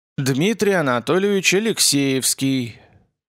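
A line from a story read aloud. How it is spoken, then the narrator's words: Strong, resonant voice. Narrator (Russian): отрекомендовался он сильным, звучным голосом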